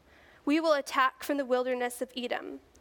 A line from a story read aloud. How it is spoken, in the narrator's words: Joram replied